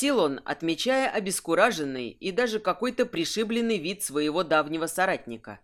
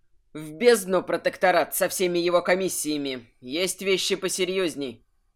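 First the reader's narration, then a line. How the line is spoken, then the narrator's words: Heartfelt, exhaling. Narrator (Russian): с чувством сказал Мокс и выдохнул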